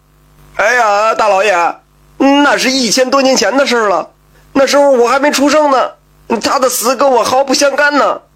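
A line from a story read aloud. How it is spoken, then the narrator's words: Frightened shouting. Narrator (Chinese): 赖子吓得大声喊道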